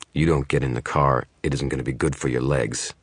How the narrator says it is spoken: the man growled

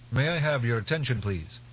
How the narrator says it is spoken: Teg called out

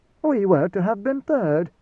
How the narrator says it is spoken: Antiak said, her voice remarkably mild in the circumstances

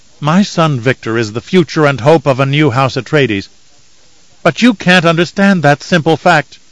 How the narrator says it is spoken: Kylia snapped

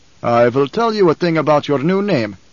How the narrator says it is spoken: Stilgar said

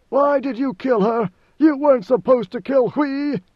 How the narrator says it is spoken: with frantic rage, screaming

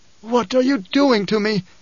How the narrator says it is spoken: Hate gasped

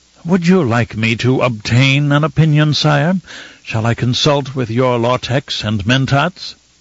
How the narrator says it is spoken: With an exaggerated sigh of forced patience, Fenring said

